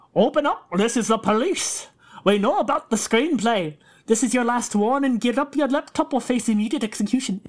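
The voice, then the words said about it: Attempted Scottish accent. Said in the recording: “What kind of an accent is that? ... I think I was going for Scottish?”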